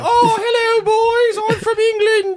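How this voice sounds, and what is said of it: Fake English accent. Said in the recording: “she was also doing a fake accent ... cut the accent”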